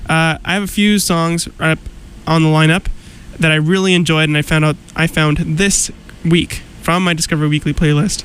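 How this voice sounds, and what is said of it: Congested, slightly nasal voice. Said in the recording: “I sound a little congested ... I can breathe out of my nose, but it is still a little bit runny. I'm a little under the weather.”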